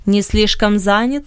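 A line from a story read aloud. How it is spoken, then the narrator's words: Mocking reply. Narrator (Russian): насмешливо отозвался Бенет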